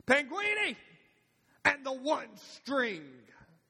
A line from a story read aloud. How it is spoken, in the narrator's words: with a twinkle in his eye, he screamed